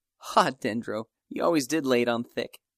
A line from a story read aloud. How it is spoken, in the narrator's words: she responded with an engaging laugh